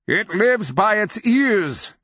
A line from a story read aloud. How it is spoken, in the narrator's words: the old wizard cried between thunders